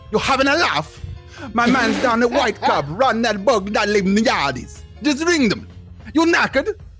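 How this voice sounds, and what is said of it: Exaggerated put-on London-style accent. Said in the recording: “What the hell is this fucking accent?”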